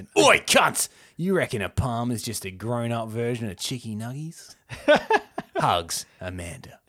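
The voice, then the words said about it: Exaggerated Australian accent. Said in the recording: “This is a very Australian email... So I'm really going to ham up my accent.”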